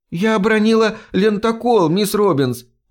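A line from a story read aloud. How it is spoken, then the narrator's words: Defensive squeak, girl. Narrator (Russian): оправдываясь, пискнула девочка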